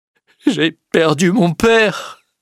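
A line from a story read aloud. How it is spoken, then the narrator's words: Sobbing. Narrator (French): dit-il en sanglotant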